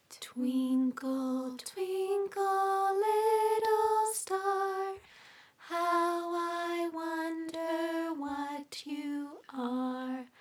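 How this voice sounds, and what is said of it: Soft, soothing sung voice. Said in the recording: “sing it in a piano voice ... Oh, I'm getting a little sleepy. ... So soothing.”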